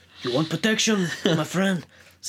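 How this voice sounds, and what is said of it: Mobster Godfather-style voice. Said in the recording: “It's a terrible, like, I'm going into Godfather territory there.”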